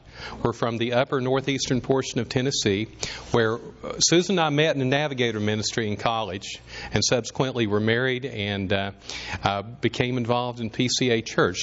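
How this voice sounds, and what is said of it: Southern US accent. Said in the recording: “you might detect from the accent that we are from the South”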